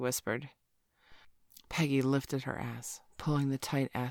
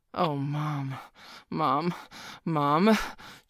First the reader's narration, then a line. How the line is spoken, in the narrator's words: Joey groaned